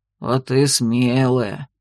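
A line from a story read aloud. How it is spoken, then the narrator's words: Pleased deep bass. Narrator (Russian): довольно пробасил Дун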